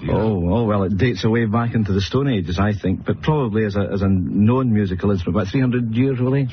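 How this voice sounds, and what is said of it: Scottish accent. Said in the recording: “Oh, I love the Scottish accent.”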